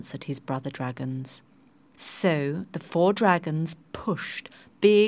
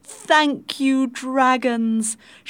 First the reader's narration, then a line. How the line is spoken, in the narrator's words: shouted the people